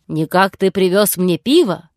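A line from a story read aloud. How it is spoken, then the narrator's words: Sleepy giant's roar. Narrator (Russian): проревел великан с высоты своего роста заспанным голосом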